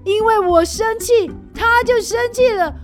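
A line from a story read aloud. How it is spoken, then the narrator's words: Roaring. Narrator (Chinese): 小狗大吼着说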